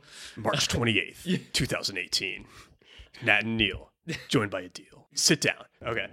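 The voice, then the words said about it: Dan Carlin impression. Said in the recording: “I can't do a good Dan Carlin impression. ... That was pretty good. ... I thought he was in the room with us.”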